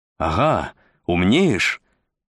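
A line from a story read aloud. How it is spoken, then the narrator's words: Exclaiming. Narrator (Russian): воскликнул Изя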